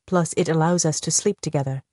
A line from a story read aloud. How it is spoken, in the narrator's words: he murmured mischievously